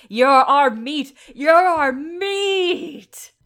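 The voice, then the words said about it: Yelling a character's line. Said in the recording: “He's yelling after them as they're running.”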